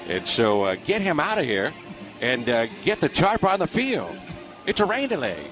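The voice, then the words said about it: Impression of John Miller. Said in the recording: “Little John Miller. That's John Miller. ... Doing a little John Miller impersonation.”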